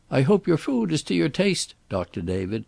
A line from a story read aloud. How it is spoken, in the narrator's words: he said in a high falsetto